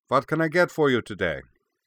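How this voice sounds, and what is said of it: Marked German accent. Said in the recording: “with a marked German accent”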